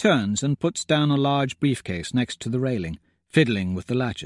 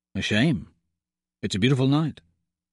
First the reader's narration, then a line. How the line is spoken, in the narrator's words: says